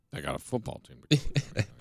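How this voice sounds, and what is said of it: Gruff, weary old-cop voice impression. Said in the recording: “good impression ... Sounds like the old grizzled cop that's been in a dirty police department for 25 years and he's just sick of it”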